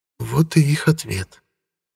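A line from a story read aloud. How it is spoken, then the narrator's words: Quiet. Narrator (Russian): негромко произнесла Илоа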